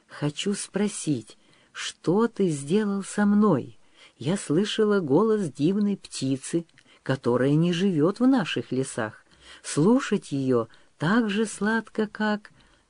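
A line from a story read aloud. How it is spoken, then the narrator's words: Soft whisper in ear. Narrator (Russian): Княжна наклонилась к его уху и тихонько зашептала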